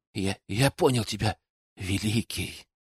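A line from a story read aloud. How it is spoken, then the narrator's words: Reverent whisper. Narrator (Russian): с благоговением прошептал Бенну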